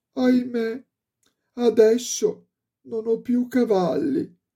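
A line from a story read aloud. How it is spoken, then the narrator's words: Exclaiming, then crying. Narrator (Italian): esclamò il piccolo Klaus e cominciò a piangere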